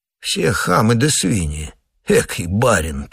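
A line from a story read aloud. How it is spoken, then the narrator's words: Whispering among themselves. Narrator (Russian): перешептывались они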